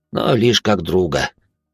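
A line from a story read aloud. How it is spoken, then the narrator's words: Young man's sorrowful sigh. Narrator (Russian): горестно вздохнул парень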